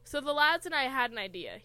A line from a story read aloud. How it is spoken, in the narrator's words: Harry says smoothly